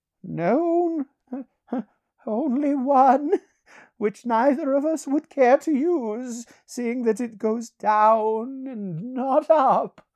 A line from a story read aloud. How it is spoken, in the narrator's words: laughed Peleus